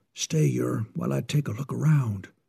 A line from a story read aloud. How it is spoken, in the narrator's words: whispered Baldy